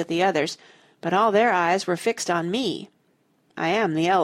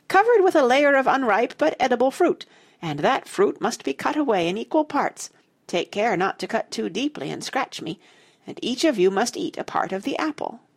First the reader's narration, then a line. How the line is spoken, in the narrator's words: it cried shrilly